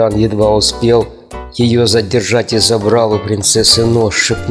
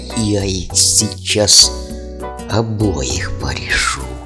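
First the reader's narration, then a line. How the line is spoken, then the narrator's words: Furious snake-like hiss. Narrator (Russian): Алмаз в ярости прошипела, как змея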